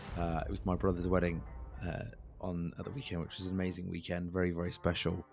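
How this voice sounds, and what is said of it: Hoarse, husky, lower-pitched voice. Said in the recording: “I'm very hoarse and very husky... my voice is taking a few days to get back. So I've gone down an octave or two.”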